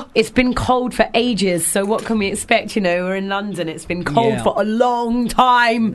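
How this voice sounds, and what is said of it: Husky voice from a cold. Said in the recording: “husky voice ... With my husky voice ... I've got a cold”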